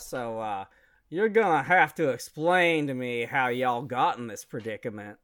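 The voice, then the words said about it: Put-on Southern accent. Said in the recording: “I'm going to do him with a southern accent”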